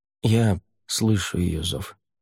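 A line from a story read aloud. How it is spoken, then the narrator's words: Quiet admission. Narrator (Russian): тихо признался Рай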